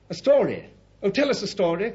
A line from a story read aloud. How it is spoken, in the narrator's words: cried the children